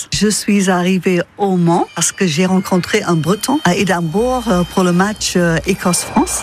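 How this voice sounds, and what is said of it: Scottish accent in French. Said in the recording (French): “j'ai un accent qui vient du fait que je suis écossaise”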